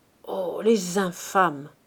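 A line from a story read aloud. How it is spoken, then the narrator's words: Murmured. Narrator (French): murmurait Silver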